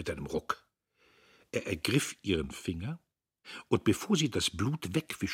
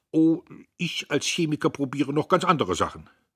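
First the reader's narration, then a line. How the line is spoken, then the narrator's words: Stern. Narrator (German): Er sagte mit streng gefalteten Brauen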